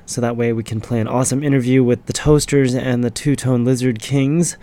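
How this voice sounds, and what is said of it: Sick-sounding deep radio voice. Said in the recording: “I've still got my lovely radio voice. It's called being sick”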